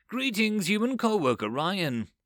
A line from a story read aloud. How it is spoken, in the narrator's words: Tapsalot called out